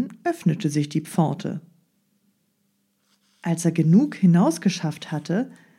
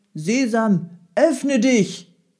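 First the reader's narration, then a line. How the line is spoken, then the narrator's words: Called out. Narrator (German): rief er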